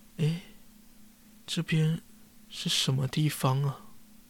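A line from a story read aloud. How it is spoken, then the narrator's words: Worried murmur to herself. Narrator (Chinese): 有些担心的桃乐丝 喃喃自语地说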